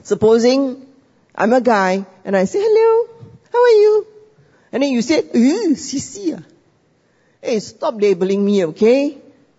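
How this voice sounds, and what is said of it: Peranakan-accented English. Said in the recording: “If you can hear my accent, I'm half Peranakan.”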